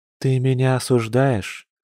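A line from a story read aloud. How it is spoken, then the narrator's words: Sad, faltering question. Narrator (Russian): печально спросила женщина, почти теряя уверенность в будущем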